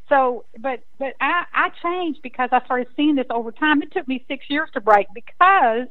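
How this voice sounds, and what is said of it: Texan accent. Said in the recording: “listen to my accent. I'm a Texas girl”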